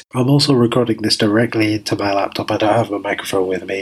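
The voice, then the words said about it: Congested voice from a cold. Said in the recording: “As you can tell, I've got a bit of a cold”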